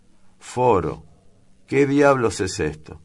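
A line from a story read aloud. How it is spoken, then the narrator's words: Exclaiming. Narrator (Spanish): exclamó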